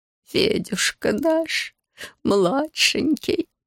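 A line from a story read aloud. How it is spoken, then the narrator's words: Old man moaning. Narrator (Russian): застонал дед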